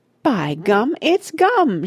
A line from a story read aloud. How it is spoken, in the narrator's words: she shrieked